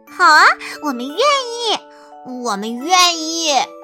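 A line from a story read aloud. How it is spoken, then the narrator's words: Laughing reply. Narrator (Chinese): 笑着答道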